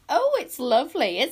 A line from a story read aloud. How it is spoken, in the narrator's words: squeaked Squeeze Juice